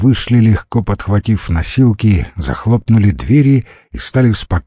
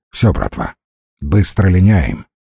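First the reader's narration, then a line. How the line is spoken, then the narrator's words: Calm. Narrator (Russian): ржавый спокойно сказал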